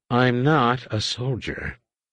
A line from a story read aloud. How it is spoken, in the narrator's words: Raynar said wearily